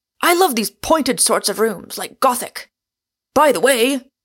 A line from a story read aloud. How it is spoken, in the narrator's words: cried out